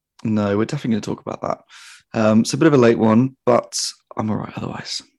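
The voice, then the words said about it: Tired-sounding voice. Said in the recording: “You sound a bit tired.”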